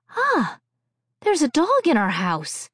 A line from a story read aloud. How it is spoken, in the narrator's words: gasped